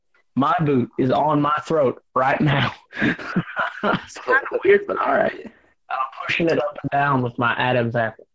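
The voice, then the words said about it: Strained put-on Southern accent. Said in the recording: “that's what all Southerners sound like, especially right now. You sound like ass. You sound like someone has their boot on your goddamn throat. ... let's drop the accents.”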